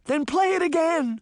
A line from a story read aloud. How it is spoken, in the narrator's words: Sabrina cried